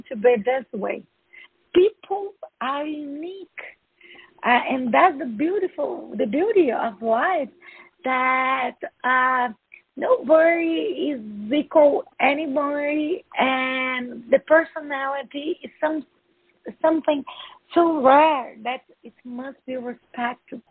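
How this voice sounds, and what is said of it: Speaks English with an accent. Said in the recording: “I love your accent, by the way. ... I'd love to get rid of my accent, but it seems impossible. ... No, it's beautiful.”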